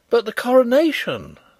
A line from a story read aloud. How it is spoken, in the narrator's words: I cried in horror